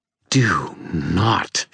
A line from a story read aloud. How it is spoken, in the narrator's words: she hissed